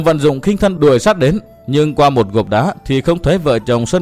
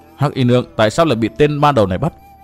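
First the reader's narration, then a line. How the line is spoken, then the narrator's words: Muttering. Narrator (Vietnamese): Chàng lẩm bẩm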